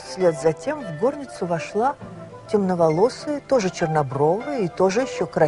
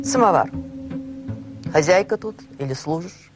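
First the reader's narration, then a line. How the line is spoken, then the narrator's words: Curt, distracted. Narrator (Russian): Приезжий отрывисто, невнимательно ответил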